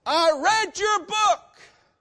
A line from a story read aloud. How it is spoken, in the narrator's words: he shouts